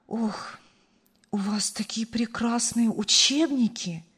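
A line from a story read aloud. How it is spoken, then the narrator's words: Delighted sigh. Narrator (Russian): восторженно вздохнула женщина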